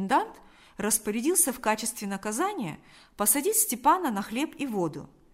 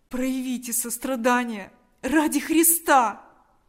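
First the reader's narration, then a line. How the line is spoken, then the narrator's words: Desperate pleading. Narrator (Russian): взмолился Степан с новым отчаянием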